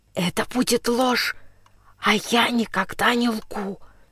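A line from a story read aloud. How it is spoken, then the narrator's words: Calm whisper. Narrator (Russian): Спокойно, таким же шепотом отвечал Андрюша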